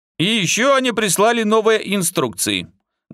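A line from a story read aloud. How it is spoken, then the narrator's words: Loud but calm. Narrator (Russian): громко, но спокойно сказал Артем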